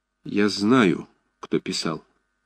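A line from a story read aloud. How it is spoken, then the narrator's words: Quiet. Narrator (Russian): тихо сказал Ромашов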